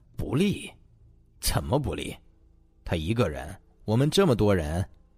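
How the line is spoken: Cold sneer. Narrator (Chinese): 达叔冷冷一笑

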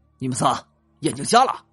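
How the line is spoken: Angry yelling. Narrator (Chinese): 李想怒了，吼了几句

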